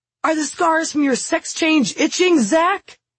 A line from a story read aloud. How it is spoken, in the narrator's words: Lars's patented saliva fountains as he yells